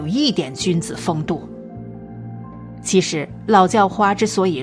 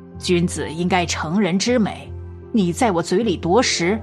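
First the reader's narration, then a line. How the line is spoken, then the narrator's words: Old beggar, insincere smile. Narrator (Chinese): 老叫花皮笑肉不笑地说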